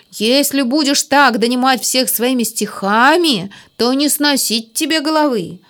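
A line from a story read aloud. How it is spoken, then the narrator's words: Grumbling. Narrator (Russian): проворчал дядя Федя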